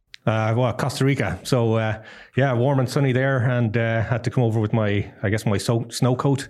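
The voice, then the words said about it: Irish accent. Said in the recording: “Now your accent is not Costa Rican. ... I am Irish”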